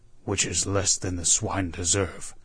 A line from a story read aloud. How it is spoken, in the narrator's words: growled Wolverstone